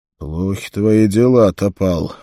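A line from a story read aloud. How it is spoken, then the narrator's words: Gruff grunt. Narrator (Russian): буркнул Конан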